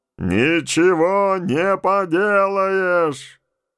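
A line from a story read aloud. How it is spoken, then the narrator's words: Distant reasonable shout. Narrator (Russian): Тот же голос на расстоянии фута от него и такой далекий прокричал резонно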